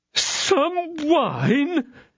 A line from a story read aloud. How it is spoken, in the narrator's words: exclaimed the astonished host